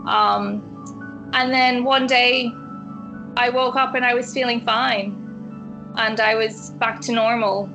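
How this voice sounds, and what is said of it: Irish-sounding accent. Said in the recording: “my accent just changed completely. And it's been this kind of Irish ever since... I do have really thick days where I can't pronounce the TH sound”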